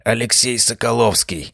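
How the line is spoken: Barely audible speech. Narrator (Russian): Едва слышно произнес Арбузов

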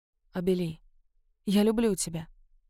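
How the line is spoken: Whispered. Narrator (Russian): Он прошептал

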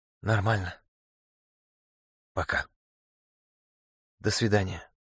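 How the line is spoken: Whispered reply. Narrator (Russian): она также шепотом ответила

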